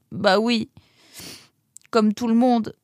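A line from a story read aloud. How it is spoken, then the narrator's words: Sobbing. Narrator (French): répondit-il en sanglotant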